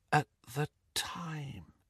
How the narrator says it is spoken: she finished in a whisper

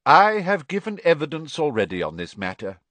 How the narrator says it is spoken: he said calmly

